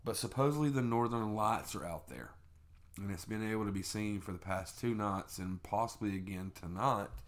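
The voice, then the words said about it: Southern US Tennessee accent. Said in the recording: “we are in Tennessee. Okay? Very south. I'm sure you can understand that from our accents.”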